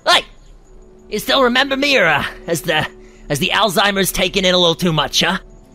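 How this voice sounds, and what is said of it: Shouting. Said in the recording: “You're shouting this at him”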